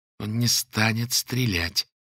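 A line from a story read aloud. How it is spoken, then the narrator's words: Through gritted teeth. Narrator (Russian): сквозь зубы выговорила Лера, сражаясь со шпингалетом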